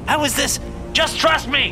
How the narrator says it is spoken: I shouted

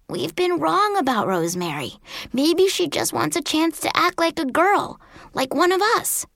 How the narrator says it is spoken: whispered back

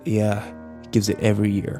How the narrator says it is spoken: Kyle muttered

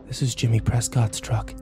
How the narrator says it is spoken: I breathed

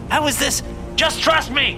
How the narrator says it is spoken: I shouted

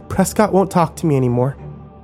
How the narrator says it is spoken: she said more calmly this time as she tried to compose herself

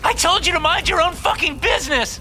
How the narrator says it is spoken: She screams

